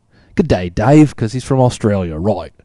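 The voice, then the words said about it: Poor put-on Australian accent. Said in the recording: “And that's a horrible accent, I know.”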